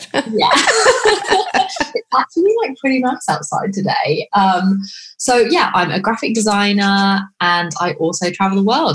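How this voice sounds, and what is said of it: British accent. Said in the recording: “I'm from the UK. I'm sure you can tell by the accent. ... So British.”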